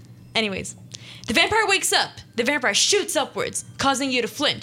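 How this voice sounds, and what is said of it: Usual voice. Nothing is said of it.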